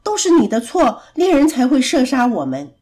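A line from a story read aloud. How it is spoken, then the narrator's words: Angry cawing ravens. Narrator (Chinese): 渡鸦们很生气的嘎嘎叫，他们对着小白渡鸦说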